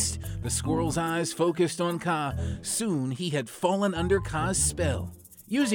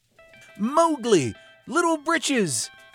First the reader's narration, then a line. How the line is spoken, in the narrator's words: Bagheera and Baloo stood across the river shouting